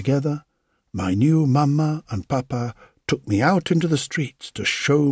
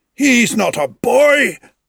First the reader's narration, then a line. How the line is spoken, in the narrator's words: shouted, mocking me